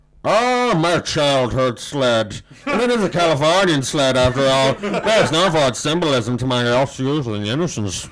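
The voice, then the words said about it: Orson Welles impression. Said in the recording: “can do an imperfect impression of Orson Welles doing champagne advert, but it's recreating a scene from Citizen Kane ... That was Citizen Champagne.”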